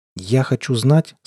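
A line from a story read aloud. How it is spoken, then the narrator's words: Tense voice. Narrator (Russian): сказал я напряженным голосом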